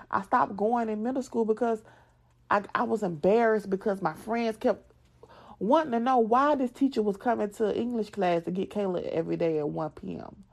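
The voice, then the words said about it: Southern American accent. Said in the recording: “when people make fun of my accent, yes, I am a, a southern girl, but certain words I cannot pronounce”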